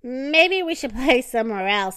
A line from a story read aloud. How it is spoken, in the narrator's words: laughed